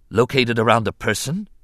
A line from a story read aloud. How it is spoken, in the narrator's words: Mace Windu asked quickly